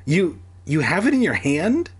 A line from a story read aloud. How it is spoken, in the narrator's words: I cried